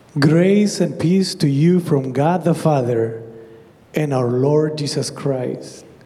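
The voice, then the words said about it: Speaks with a noticeable accent. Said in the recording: “I like your accent.”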